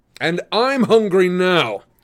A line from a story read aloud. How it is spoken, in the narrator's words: roared the wizard